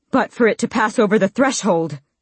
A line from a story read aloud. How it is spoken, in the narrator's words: Dorian panted